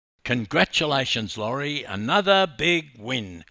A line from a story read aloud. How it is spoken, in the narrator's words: yelled an excited timekeeper